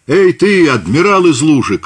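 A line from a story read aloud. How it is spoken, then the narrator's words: Shout. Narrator (Russian): крикнул он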